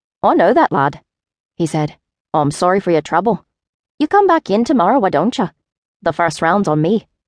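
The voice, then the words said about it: Irish lilt character voice. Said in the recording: “His Irish lilt was pronounced.”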